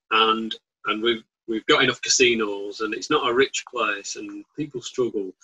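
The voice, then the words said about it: Bolton accent. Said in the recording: “as you know from my accent, I'm from Bolton”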